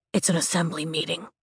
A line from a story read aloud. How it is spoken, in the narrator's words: Bodhi whispers to me